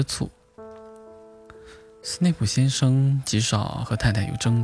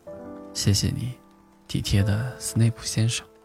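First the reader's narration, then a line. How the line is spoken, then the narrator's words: Soft, quiet. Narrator (Chinese): 轻声说道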